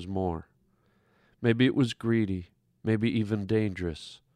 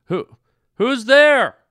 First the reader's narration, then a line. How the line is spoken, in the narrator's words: he called out, almost frightened